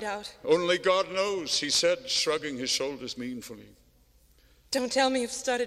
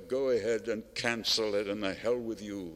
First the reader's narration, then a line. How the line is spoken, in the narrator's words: Nyerzhin muttered under his breath